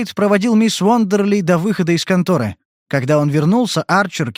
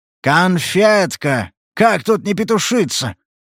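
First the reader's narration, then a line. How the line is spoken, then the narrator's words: Rough sudden laugh. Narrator (Russian): Арчер вдруг грубо хохотнул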